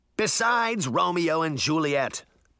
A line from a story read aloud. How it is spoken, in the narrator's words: Puck shouted